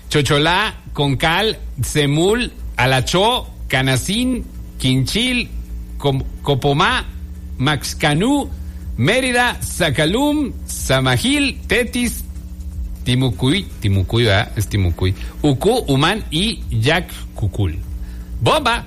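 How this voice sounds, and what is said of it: Put-on Yucatecan Spanish accent. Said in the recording (Spanish): “ya que se me quite el acento yucateco”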